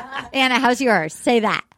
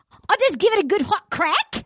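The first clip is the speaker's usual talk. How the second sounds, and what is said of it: Bad Australian accent sounding Irish. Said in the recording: “Your Australian accent coming? ... it's so Irish and bad”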